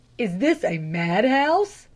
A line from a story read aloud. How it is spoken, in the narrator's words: gasped the lay reader